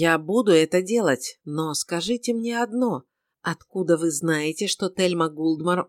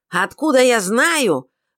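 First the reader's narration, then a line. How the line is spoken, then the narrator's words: Sharp, nearly shouted. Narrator (Russian): резко переспросила, почти выкрикнула Лависа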